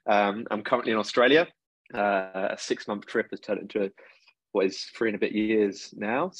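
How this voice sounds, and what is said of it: Englishman with Australian twang. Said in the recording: “my Australian twang over the past four seasons, which has probably got a little bit more exaggerated”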